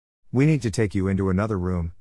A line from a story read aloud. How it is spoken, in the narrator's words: the man said